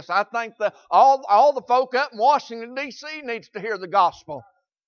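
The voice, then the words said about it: Southern American accent. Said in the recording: “says I got an accent ... I talk plain Southern language ... you got an accent”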